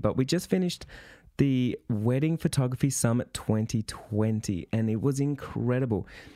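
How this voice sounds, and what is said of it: Slightly croaky voice. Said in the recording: “tell in my voice, I'm a little bit croaky”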